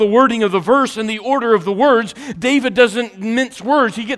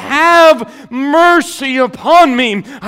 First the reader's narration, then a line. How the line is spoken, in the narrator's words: David cried out and said